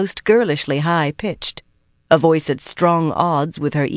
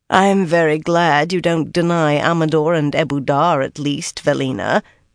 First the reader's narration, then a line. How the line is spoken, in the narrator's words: Siobhan said dryly, and she could be very dry indeed